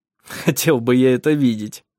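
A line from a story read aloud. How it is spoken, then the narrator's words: Laughing. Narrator (Russian): рассмеялся он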